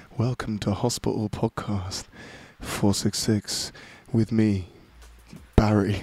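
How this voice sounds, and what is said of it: Moist, wet-sounding put-on voice. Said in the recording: “Dared me to do a whole podcast in my moist voice.”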